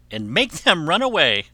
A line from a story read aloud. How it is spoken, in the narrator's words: said Shuri, with a laugh